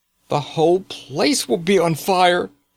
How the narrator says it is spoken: cried

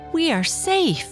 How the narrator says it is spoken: the gnome cried out excitedly

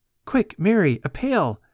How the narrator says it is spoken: cried Joanne's mother

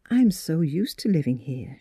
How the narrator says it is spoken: she said gently

